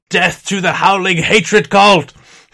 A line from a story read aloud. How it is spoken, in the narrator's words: they will yell out